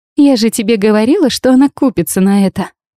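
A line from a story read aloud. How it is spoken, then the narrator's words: Laughing. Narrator (Russian): Засмеялась та, что сделала снимок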